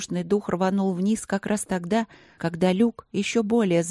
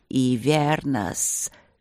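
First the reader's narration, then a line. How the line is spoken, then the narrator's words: Reluctant hiss from above. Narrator (Russian): неохотно прошипели сверху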